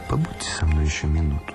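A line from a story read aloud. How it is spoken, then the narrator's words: Plain. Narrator (Russian): сказал я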